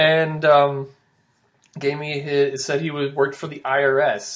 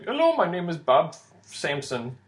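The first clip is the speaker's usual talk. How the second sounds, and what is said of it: Imitated heavy Indian accent. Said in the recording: “gives me a heavy Indian accent, but gives me, of course, a totally American name”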